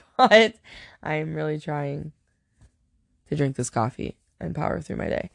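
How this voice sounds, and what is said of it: Tired, exhausted-sounding voice. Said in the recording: “if you can't tell from my voice, I'm clearly exhausted”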